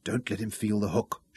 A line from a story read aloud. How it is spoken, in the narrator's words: Shaza whispered a prayer